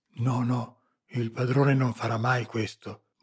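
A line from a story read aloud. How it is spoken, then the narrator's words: Murmuring to himself. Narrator (Italian): mormorò tra sé Babbo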